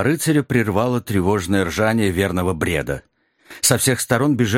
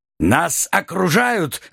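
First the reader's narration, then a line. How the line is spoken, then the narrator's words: Crusader roaring. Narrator (Russian): взревел крестоносец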